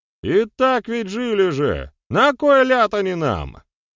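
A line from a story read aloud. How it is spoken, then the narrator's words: Shout from the back rows. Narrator (Russian): выкрикнул кто-то из задних рядов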